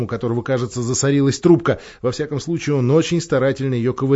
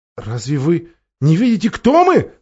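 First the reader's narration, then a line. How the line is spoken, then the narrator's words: Exclaimed. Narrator (Russian): воскликнула Люси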